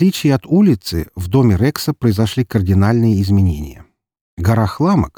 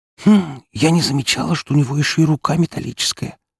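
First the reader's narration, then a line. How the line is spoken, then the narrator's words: Private whisper. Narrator (Russian): прошептала Фокси в закрытом режиме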